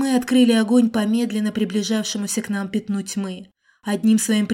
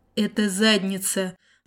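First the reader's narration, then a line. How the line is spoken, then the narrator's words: Sighing command. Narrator (Russian): вздохнул я и скомандовал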